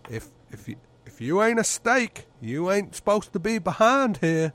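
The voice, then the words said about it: Put-on American accent. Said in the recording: “Your American accent's fantastic ... your American accent is fantastic”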